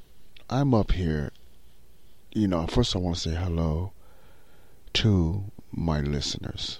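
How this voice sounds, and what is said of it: Quiet, soft-spoken voice. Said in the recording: “in his quiet voice”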